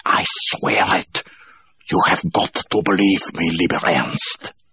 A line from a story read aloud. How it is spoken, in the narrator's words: She added fiercely